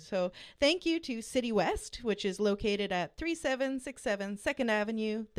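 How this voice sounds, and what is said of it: Polished radio announcer voice. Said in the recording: “that's a great radio voice right there”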